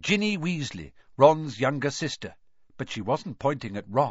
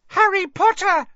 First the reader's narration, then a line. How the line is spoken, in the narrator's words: she squealed